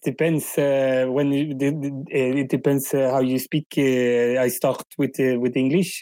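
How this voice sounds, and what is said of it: Put-on French accent in English. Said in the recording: “I can speak Swedish, English, and Spanish with a French accent. ... It is not a super super good French accent”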